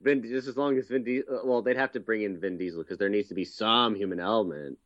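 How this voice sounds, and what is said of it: Usual voice. Nothing is said of it.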